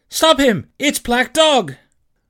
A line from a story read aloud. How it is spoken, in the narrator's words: I cried